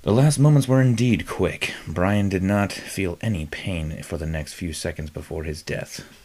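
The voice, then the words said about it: Dramatic storyteller narrator voice. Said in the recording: “Let me get in my narrator voice.”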